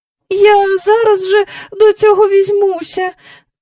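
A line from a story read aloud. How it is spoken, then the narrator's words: Weak woman's voice. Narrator (Ukrainian): промовила місіс Бенкс кволим голосом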